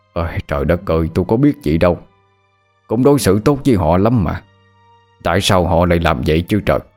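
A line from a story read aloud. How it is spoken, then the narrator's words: Sighing. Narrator (Vietnamese): Chú nhà thở dài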